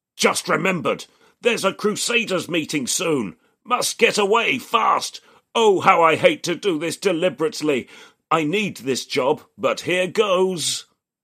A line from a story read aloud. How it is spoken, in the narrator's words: And the mirror-carrying man bellows inside his mind